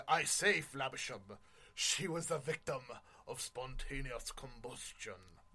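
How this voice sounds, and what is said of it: Bad put-on British accent. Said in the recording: “That is the worst British accent.”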